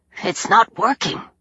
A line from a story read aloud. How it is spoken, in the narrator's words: Bess muttered